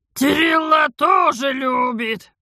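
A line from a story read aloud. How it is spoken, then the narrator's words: Hoarse, hunted, after coughing. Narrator (Russian): раскашлялась до выступивших на глазах слез и затравленно прохрипела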